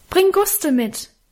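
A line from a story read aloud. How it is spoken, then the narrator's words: Calling after into darkness. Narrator (German): rief ich ihm in die Dunkelheit nach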